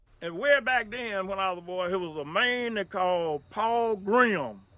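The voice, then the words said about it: Heavy Alabama accent. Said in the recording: “he's got a very heavy accent, so put your Alabama ears on and listen tight”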